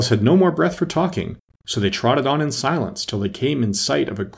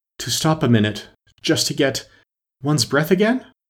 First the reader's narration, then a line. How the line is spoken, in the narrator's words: panted out after running a little further